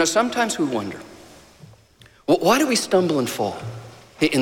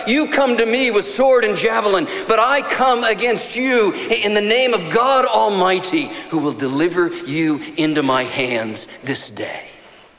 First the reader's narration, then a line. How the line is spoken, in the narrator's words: he shouts